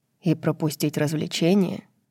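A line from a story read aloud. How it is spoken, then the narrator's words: Muttered. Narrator (Russian): пробормотал Азриэль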